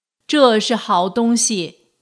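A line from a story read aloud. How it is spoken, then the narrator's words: Loud. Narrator (Chinese): 他大声说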